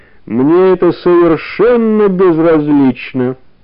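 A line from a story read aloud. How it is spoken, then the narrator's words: Said through clenched teeth. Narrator (Russian): процедил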